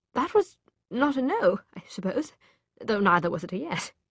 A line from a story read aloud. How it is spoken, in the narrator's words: he said, trying for lightness, though his voice cracked